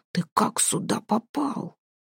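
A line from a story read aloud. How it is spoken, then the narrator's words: Deep rumbling question. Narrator (Russian): Спросил глухо и низко, почти пророкотал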